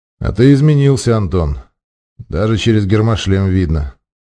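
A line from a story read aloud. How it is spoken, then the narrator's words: Calm. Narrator (Russian): спокойно произнес майор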